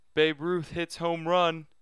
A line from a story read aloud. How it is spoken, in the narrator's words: called out